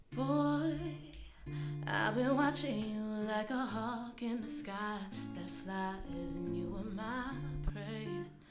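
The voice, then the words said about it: Worn-out, strained singing voice. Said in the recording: “I'm lowering this key because you know my voice is kind of gone”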